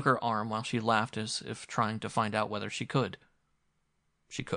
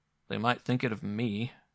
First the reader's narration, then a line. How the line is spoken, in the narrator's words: said grimly